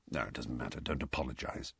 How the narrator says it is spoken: Sirius mumbled

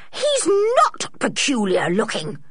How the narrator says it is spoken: she spluttered

